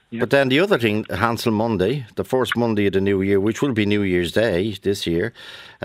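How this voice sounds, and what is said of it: Dublin Irish accent. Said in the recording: “your Dublin accent”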